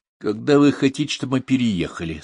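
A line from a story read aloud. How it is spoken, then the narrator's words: Plain. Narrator (Russian): спросил Поль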